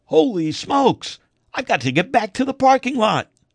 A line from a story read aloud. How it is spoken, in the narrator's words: he stopped mid-joke and screamed